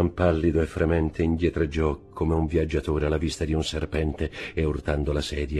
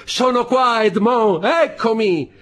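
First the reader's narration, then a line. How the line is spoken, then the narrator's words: Shouting. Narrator (Italian): gridando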